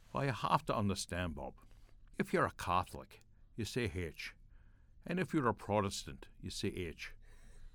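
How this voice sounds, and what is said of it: Put-on Northern Irish accent. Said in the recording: “my best Northern Ireland dialect”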